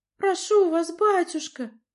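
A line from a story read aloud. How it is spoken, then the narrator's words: Pleading. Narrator (Russian): взмолилась Надя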